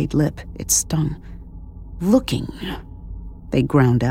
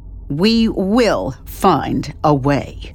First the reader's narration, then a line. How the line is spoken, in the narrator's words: she said sharply